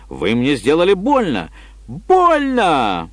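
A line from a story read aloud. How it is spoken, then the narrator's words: Shrill shriek. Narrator (Russian): Ада Квонсет взвизгнула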